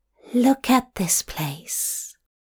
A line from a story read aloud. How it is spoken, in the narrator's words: Aziraphale whispered